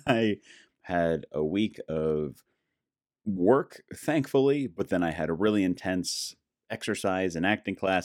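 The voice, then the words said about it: Hoarse, strained voice. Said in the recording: “my voice is shot ... put my throat, my vocal cords, a little over the top ... it sounds like it might be a little more radio worthy”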